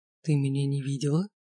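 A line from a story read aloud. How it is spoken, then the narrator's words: Whispered question. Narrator (Russian): шепотом спросил Богдан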